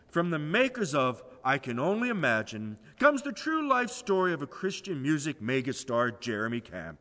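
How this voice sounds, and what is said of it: Movie trailer announcer voice. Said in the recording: “good announcer voice”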